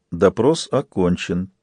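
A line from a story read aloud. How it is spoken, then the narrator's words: Quiet. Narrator (Russian): тихо сказала Карасон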